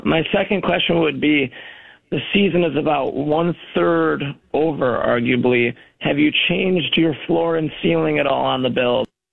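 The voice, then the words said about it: Hoarse, strained voice. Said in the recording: “I kind of lost my voice from all the yelling at the game”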